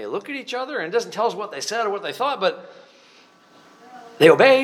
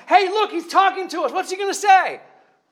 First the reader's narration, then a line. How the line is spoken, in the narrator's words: I'm shouting